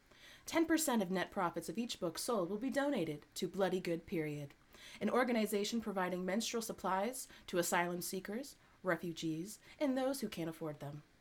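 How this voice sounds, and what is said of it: Serious put-on reading voice. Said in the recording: “That's like my serious white girl voice.”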